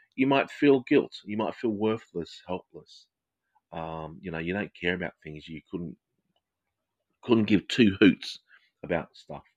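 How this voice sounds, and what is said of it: Australian English accent. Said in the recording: “Sorry for my accent. It's Australian English.”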